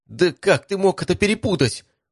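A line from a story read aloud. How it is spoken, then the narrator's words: Emotional young woman's cry. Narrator (Russian): уже не сдерживая эмоций, вскрикнула девушка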